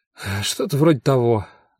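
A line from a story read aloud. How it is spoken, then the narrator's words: Sighing. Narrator (Russian): вздохнул я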